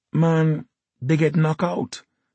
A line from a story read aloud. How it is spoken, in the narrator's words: she lisped